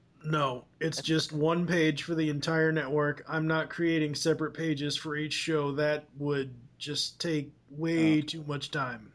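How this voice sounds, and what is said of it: Hoarse, strained, fading voice. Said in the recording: “I'm in the middle of losing my voice here. ... Sounds like it.”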